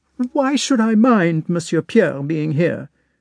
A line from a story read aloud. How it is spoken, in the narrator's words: exclaimed the little princess suddenly, her pretty face all at once distorted by a tearful grimace